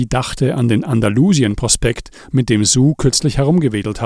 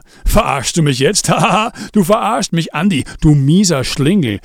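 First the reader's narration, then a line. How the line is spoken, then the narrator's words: Booming laughter. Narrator (German): Reinhold lachte dröhnend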